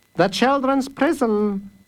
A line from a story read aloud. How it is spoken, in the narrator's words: said Master Fish cheerfully